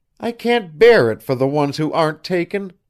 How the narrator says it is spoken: she cried out

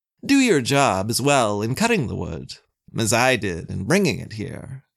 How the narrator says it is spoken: Glaum rather pompously told him

